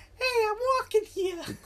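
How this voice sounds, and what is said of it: Put-on Chicago accent, funny voice. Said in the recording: “his voice was so funny. It was like I guess like kind of like a Chicago accent”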